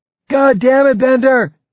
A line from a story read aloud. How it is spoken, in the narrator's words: Viveros yelled